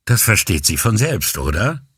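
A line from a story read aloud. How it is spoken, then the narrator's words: Dry reply. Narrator (German): gab Avisani trocken zurück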